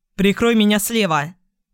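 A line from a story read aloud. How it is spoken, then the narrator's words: Shouted. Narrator (Russian): крикнул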